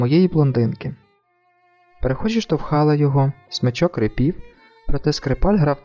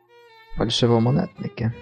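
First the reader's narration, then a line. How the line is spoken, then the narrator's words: Grumbled. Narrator (Ukrainian): буркнув він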